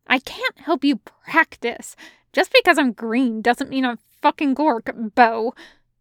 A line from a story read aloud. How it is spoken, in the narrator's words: Nott to shriek out